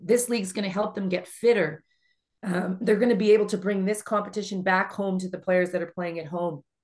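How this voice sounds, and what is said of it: Hoarse, failing voice. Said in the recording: “I'm losing my voice”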